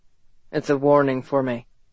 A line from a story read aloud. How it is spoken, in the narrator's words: Ethan said flatly